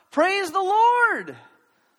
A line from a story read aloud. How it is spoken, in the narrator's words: she shouted out